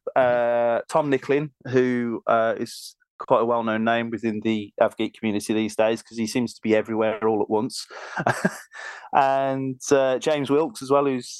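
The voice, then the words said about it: Birmingham English accent. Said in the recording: “we're all from Birmingham, so you're going to have to put up with my accent”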